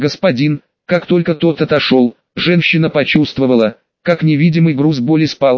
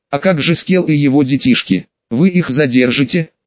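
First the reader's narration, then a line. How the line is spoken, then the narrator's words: Plain. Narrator (Russian): ответил тот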